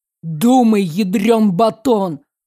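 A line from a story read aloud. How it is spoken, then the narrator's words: Growled. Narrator (Russian): рыкнул я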